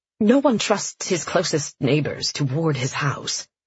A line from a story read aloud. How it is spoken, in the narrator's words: Caleb muttered